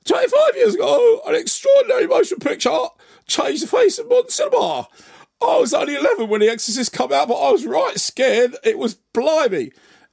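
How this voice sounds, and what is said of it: Imitates another person's voice. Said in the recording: “own impression of Danny Dyer”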